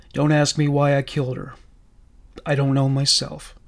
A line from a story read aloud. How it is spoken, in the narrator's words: Chris said, calmly